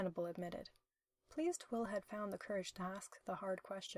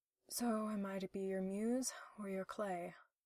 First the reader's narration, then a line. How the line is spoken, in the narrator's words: Will asked wistfully, already having a bad feeling about the answer